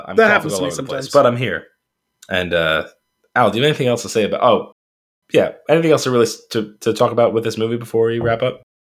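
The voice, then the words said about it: Strained, failing voice. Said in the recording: “I'm slowly deteriorating towards the end of this episode. My voice has dropped twice.”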